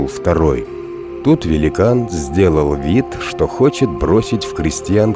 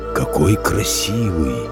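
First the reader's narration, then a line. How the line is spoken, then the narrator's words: Giant's whisper. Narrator (Russian): прошептал великан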